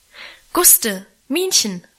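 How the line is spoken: Called loudly. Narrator (German): rief sie laut

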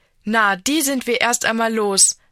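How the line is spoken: Plain. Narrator (German): sagt Anna

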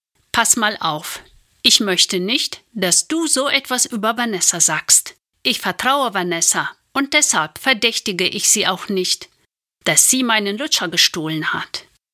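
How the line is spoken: Firm voice. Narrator (German): Entschlossen Nina sagt mit fester Stimme

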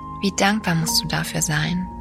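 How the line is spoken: Plain. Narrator (German): sagte

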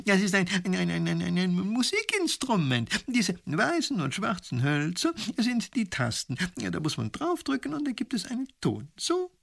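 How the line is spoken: Laughing. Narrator (German): lacht der Professor

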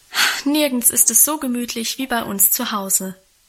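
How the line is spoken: Contented sigh. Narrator (German): hatte Guste auch an diesem Abend wieder einmal mit einem befriedigten Seufzer versichert

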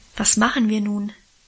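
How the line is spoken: Plain. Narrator (German): fragte ich endlich

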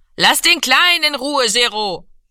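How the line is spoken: Calling out. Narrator (German): rief Mami

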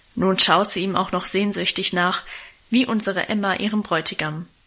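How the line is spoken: Grumbling. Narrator (German): Guste brummte

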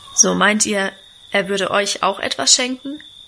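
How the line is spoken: Plain. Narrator (German): fragte er

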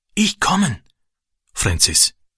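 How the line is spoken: Whisper. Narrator (German): flüsterte er

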